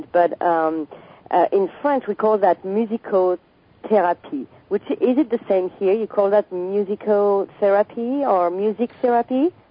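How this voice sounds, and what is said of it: French accent. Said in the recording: “I'm French and totally betrayed by my accent”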